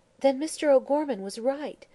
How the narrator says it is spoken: she exclaimed

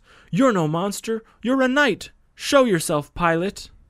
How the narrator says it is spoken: The boy shouts

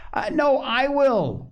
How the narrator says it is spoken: shouted Joel

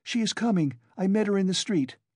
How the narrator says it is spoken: She came in panting from running so fast, said

